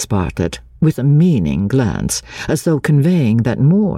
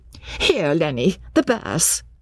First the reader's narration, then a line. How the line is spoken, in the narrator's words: cried Mrs